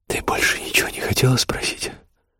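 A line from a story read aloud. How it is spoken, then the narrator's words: Whispered in ear. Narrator (Russian): прошептал ей на ушко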